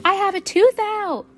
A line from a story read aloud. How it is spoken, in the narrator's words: Sal shouted